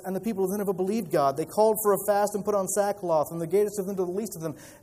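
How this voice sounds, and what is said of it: Reading very fast. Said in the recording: “why is he reading that so fast?”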